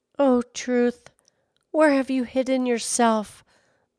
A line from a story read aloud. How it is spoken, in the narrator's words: the waiter sighed